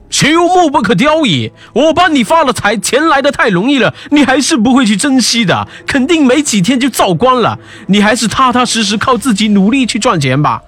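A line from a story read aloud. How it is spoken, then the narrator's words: Angry scolding. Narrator (Chinese): 城隍嗔怒道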